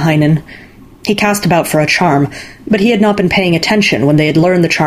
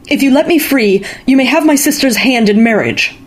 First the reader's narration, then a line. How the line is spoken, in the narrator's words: he shouted at Vainamoinen